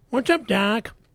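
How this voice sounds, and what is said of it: Bugs Bunny cartoon voice impression. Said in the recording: “does a pretty good impression ... do your Bugs Bunny impression”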